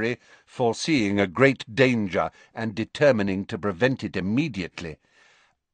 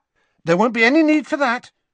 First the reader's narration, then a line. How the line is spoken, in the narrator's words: said Harry hastily